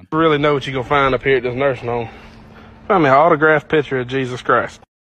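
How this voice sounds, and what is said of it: Southern accent, slurred words. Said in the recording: “that southern accent right there where the words were all slurred”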